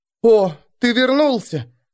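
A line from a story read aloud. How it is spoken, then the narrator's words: Exclaiming. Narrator (Russian): воскликнула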